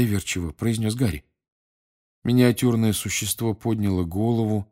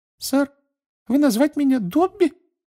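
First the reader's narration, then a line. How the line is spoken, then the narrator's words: Curious muffled elf squeak. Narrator (Russian): с любопытством пискнул эльф между пальцев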